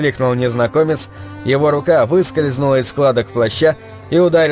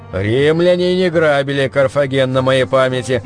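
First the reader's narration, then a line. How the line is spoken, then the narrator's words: Puzzled grumble. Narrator (Russian): проворчал Гейзерих, озадаченно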